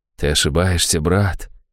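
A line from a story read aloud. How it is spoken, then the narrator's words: Quiet objection. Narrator (Russian): тихо возразил он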